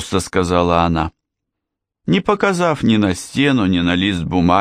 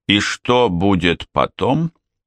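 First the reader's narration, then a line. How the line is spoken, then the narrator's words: Plain question. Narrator (Russian): спросил он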